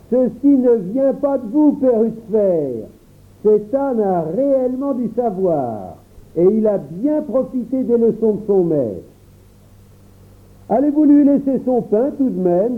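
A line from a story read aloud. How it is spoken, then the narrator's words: Exclaiming. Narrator (French): Un ami s'écria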